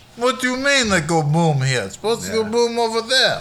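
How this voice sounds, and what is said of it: Put-on Russian accent. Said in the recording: “I've been practicing my Russian accent a little bit.”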